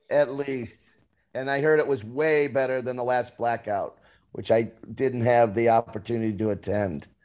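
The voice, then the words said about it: Hoarse voice. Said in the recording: “I'm a little hoarse today, baby. Little hoarse today.”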